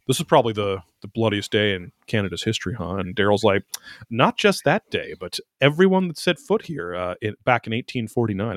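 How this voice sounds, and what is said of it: Subtle put-on Canadian accent. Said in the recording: “I'm trying to do a little subtle Canadian accent.”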